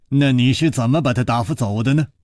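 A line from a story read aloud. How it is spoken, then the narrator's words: Laughing. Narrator (Chinese): 楚留香笑着说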